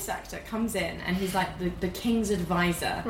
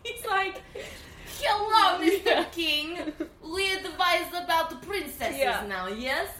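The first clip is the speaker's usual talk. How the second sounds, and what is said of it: Put-on Eastern European accent. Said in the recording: “So he was, like, Eastern European.”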